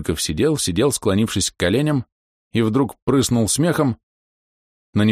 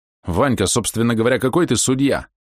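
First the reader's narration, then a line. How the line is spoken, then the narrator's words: Indignant. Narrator (Russian): Кудлатый сказал ему возмущенно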